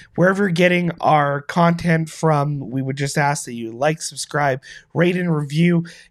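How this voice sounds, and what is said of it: Sick-sounding, affected voice. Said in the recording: “You'll have to forgive my voice today. I'm getting over a cold”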